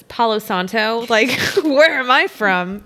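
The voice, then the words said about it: Southern Texan accent on certain words. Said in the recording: “my accent. My accent is so atrocious. ... That's when the Southern comes out in me in certain words. ... that is completely a Texan accent. ... it's only with certain words. ... It's pretty atrocious”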